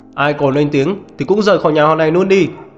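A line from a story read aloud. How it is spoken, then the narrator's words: Angry shout. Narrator (Vietnamese): Diệp Pháp Hồng hét lên giận dữ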